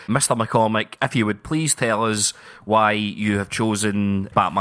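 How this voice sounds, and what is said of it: Usual voice. Nothing is said of it.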